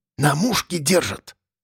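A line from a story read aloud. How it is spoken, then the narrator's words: Whispered through clenched teeth. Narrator (Russian): подытожил Тулуш, шепча сквозь зубы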